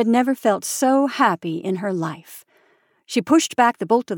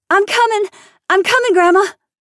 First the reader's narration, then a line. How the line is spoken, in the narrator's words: shouted Anne Mary